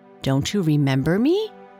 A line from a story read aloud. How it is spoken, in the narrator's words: she asked